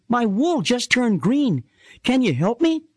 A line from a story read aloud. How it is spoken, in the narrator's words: Shelby pleaded